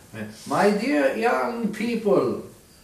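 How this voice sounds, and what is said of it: Imitates a Polish priest's voice. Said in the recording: “I am St. John Paul II. I don't know if that's really what he sounded like... I heard like a Polish priest once... That's actually pretty good... my John Paul II impression”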